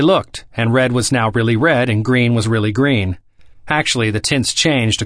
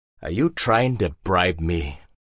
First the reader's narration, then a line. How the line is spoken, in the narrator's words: Hagbard asked sternly